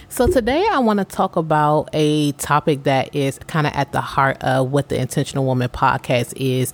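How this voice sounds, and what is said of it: Sounds a little funny, impaired speech. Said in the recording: “I had a tooth pull earlier this week, so if I sound a little funny, that is why”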